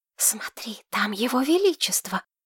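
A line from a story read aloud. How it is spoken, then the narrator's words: Hiss. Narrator (Russian): зашипела Тамира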